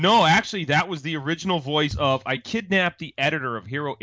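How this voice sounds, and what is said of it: Usual voice. Nothing is said of it.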